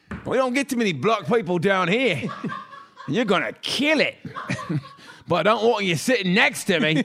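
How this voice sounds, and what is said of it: Convincing put-on Australian accent. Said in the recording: “Why are you so good at that Australian accent, bro? ... It's so good. ... That was good.”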